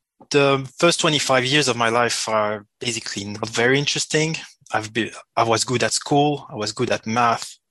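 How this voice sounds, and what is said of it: French-accented English. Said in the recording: “I was born in Switzerland and my main language is French. So I apologize for the accent”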